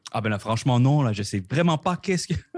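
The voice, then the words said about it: Québécois French accent. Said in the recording (French): “on l'aura deviné à ton accent, euh, tu n'es euh, dans la merveilleuse ville de Québec”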